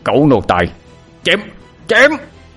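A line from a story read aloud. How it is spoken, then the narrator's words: Childish tantrum shout. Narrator (Vietnamese): Vẻ mặt Ngôn Khoan như một đứa con nít đột ngột bị lấy đi thanh kẹo, miệng mở tan quát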